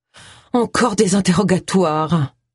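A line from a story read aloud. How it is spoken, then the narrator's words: Groaning. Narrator (French): gémit Agatha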